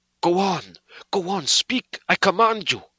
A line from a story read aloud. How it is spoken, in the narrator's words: said Van Helsing, in an agonized voice